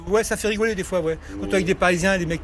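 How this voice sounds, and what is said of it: Rural French regional accent. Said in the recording (French): “accent un peu de la campagne ... L'accent du terroir ... au lieu de dire un gâteau, on va dire un gâteau”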